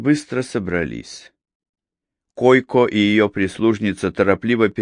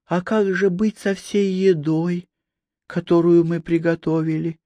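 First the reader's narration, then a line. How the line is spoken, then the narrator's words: Wife's timid question. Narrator (Russian): робко спросила его жена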